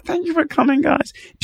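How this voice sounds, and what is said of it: Imitates another person's voice. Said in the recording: “my impression of her”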